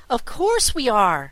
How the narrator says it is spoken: cried Trot

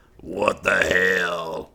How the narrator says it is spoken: he grumbled

